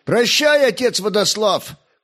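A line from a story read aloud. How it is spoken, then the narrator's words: Young man shouting. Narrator (Russian): крикнул молодой огнещанин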